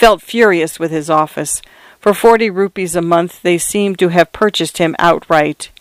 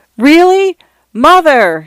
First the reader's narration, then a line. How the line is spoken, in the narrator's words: Shanta shouted